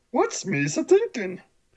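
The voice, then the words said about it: Poor Jar Jar impression, throaty. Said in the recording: “horrible, horrible Jar Jar impersonation. Horrible ... It sounds like you're swallowing something ... It sounds like you got something stuck in your throat.”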